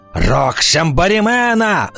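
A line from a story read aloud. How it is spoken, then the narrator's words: Shouting. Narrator (Russian): закричал он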